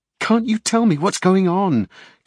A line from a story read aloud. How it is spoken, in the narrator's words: Kate pleaded